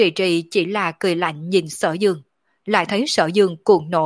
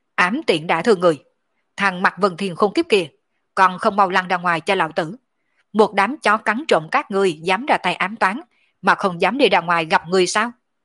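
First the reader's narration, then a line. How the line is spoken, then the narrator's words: Shouting angrily. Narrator (Vietnamese): Sở Dương ngẩng đầu quát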